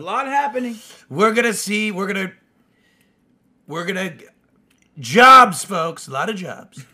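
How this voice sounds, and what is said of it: Donald Trump impression. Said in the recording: “In a Trump voice.”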